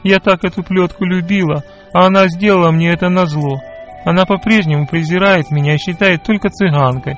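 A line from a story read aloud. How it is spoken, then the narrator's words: Tearful babbling. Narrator (Russian): сквозь слезы лепетала она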